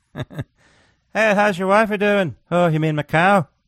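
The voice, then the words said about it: Put-on Irish accent. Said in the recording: “Sounds like an Irish guy describing his wife ... doing that accent”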